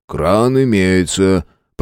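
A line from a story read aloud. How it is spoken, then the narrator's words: Grumbling. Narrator (Russian): проворчал он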